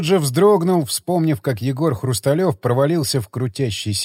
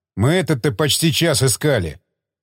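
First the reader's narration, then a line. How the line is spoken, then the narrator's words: Angry, offended man. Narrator (Russian): зло проговорил оскорбленный добытчик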